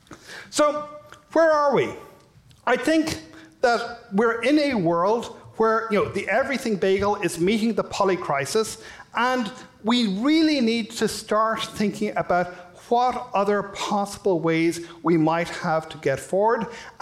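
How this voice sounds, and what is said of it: Irish accent. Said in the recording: “You may have been able to tell from my accent, I'm from Ireland.”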